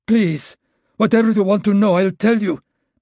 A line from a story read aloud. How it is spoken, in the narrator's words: Maxim begged